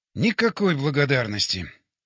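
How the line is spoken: Tired inner thought. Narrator (Russian): устало подумал я

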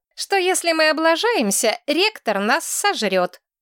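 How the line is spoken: Rude reply. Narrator (Russian): грубо ответила Мэтчен Дорфер

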